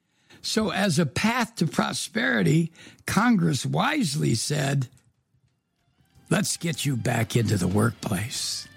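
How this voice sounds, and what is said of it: Raspy hoarse voice. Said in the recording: “my raspy voice. It will soon correct, I hope.”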